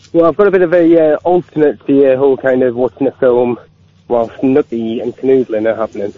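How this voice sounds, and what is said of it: Northern English accent. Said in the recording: “that may be my northern accent”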